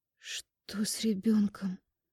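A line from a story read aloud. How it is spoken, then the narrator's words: Trembling, fearful question. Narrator (Russian): Спрашиваю дрожащим голосом, боясь услышать, что там внутри на самом деле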